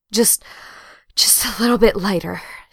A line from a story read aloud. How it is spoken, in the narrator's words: she gasps